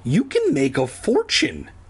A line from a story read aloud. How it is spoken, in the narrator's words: Andy exclaimed